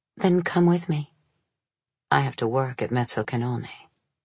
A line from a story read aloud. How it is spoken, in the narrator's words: said softly